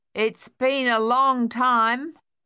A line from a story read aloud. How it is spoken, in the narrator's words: Sonia said finally, loudly